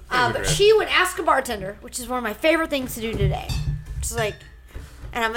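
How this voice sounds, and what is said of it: Usual voice. Nothing is said of it.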